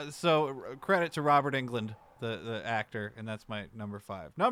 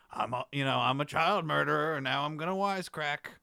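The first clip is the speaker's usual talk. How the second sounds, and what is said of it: Freddy Krueger villain character voice. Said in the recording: “That wasn't a good Freddy impression ... It's pretty good.”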